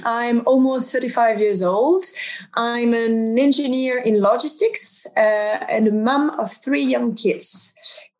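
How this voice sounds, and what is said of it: French accent. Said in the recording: “I'm French, as you can tell by the accent.”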